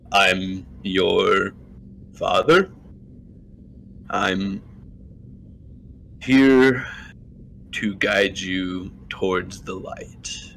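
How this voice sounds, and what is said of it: Deep put-on character voice. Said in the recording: “the deep voice you hear from beyond the hand is, you know, the deep voice.”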